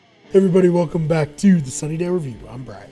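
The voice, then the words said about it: Voice suddenly very deep. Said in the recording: “Did your voice just get super deep at the beginning of that? ... It opposite cracked to go down an octave instead of up.”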